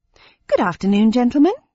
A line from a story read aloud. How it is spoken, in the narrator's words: said in a friendly tone